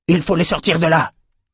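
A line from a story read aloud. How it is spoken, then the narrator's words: Shouted. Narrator (French): cria Sol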